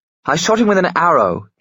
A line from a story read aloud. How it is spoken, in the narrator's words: Gabriel shouted